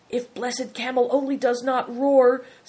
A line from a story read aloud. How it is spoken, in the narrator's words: said Bator anxiously